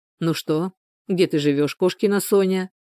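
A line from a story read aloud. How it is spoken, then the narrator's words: Plain. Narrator (Russian): спросил Егор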